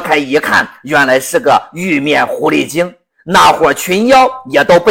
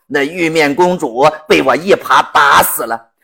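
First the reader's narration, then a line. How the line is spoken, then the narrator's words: Eerie, smirking. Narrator (Chinese): 老猪诡异的一笑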